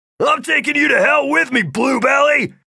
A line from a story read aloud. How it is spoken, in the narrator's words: Rafe shouted right back